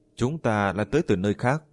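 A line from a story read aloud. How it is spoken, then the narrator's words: Smiling. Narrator (Vietnamese): Diệp Kỳ Thu mỉm cười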